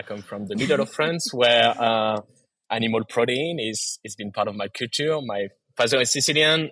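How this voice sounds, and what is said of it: Strong French accent. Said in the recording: “I have a very strong French accent”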